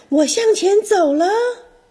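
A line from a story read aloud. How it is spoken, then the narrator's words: Bold, proud shout. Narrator (Chinese): 小玩具船觉得自己很神勇，对着风大喊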